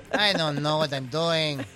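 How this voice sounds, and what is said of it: Put-on Spanish-Irish accent. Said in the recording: “Why the accent? ... he's like switching it up. ... It's like a Spanish accent at this point. ... Spanish, Irish.”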